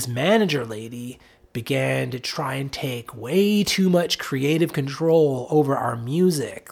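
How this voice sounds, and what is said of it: Usual voice. Nothing is said of it.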